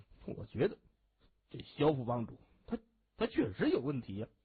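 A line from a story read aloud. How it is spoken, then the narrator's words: Glum low mutter. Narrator (Chinese): 孙开河哭丧着脸，低声嘟囔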